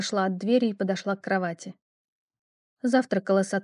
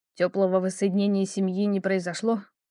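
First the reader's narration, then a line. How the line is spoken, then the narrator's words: Snort. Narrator (Russian): хмыкнул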